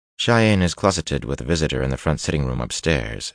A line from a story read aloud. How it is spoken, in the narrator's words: she said calmly